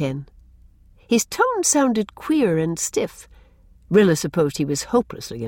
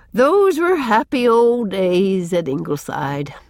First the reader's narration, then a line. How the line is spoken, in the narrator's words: said Susan with a sigh